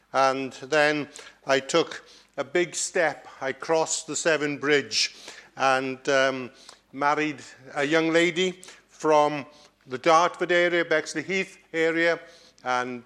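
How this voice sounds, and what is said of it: Welsh accent. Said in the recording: “this strange accent that you hear this evening. I grew up in the west of Wales”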